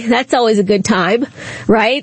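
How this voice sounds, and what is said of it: Sarcastic tone. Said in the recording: “of course I'm being sarcastic.”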